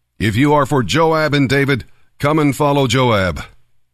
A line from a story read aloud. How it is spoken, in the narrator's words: One of Joab's young officers shouted to Amasa's troops